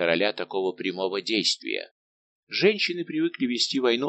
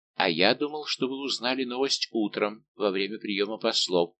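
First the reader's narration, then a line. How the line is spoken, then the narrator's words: Plain. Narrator (Russian): сказал король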